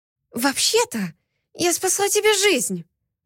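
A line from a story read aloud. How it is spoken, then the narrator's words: Indignant whisper. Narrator (Russian): возмущенно прошептала я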